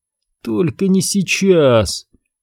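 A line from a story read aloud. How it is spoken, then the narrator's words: Silent pleading. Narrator (Russian): неслышно взмолился он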